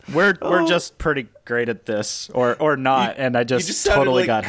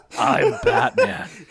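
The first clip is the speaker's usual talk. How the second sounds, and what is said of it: Muffled gravelly Christian Bale Batman impression. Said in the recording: “Cookie Monster with a mouthful of vanilla wafers trying to do a Christian Bale impression”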